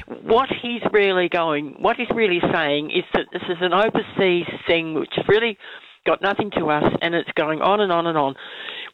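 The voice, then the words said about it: Croaky voice from a cold. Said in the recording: “I've got a bit of a cold, so my voice is a bit croaky”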